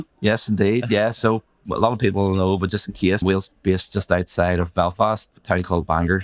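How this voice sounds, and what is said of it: Northern Irish accent. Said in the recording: “from Northern Ireland, great to hear the accent.”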